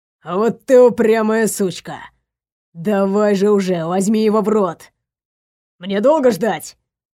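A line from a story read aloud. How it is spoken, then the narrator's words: Displeased grumbling. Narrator (Russian): Недовольно ворчал он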